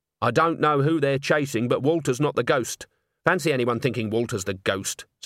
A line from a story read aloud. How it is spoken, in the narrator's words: said Agnes hotly